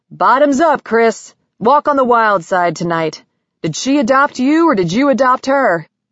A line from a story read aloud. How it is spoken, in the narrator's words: Charlie Bogart yelled